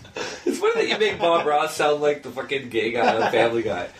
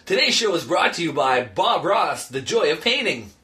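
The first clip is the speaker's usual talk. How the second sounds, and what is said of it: Announcer-style radio voice. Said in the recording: “I'm reading my radio voice”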